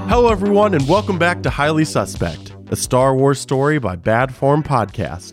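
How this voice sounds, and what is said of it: Sick, slightly off voice. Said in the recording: “I'm feeling quite sick. So if my voice sounds a little off, that's why... just allergies”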